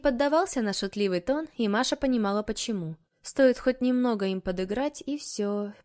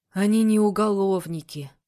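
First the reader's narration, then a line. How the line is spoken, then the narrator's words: Tired repetition. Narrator (Russian): повторил Егор устало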